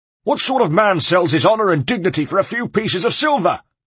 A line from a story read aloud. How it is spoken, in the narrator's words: was bellowing, but his throat was getting dry and he was running out of steam, despite his iron will